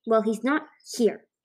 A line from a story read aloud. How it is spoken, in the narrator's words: Lister spat